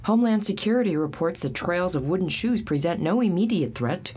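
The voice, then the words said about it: Sexy character voice. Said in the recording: “You have a very sexy voice. ... It's just for this part. My spastic everyday voice is used for other parts”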